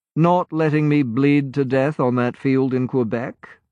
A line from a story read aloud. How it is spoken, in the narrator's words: Malcolm said dryly